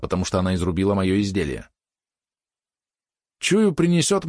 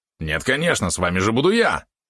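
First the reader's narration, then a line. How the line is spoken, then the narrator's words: Indignant yap. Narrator (Russian): возмущенно тявкнул Валерон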